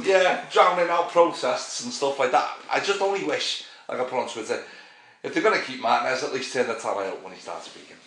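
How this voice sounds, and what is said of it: Northern English woolly back accent. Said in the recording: “your woolly back accent”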